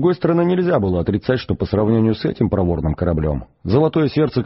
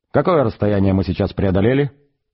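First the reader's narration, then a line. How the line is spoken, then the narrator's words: Plain. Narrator (Russian): спросил Форд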